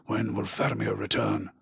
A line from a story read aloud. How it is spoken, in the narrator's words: the wizard sigh and mutter